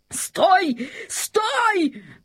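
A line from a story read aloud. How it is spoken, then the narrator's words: King shouting. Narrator (Russian): закричал король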